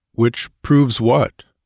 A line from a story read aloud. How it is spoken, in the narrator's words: grunted the Cimmerian